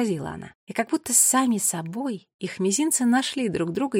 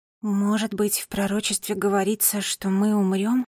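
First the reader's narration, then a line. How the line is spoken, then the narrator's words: Mournful voice. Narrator (Russian): сказала Нола траурным голосом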